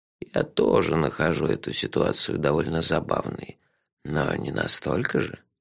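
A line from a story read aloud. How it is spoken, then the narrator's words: Soft. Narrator (Russian): мягко сказал он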